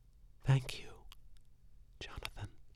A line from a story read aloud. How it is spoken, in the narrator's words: whispered